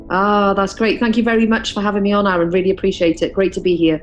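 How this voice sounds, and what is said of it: Welsh accent. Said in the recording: “it sounds like you have a Welsh or English accent ... From Cardiff in South Wales. I'm a Cardiff girl”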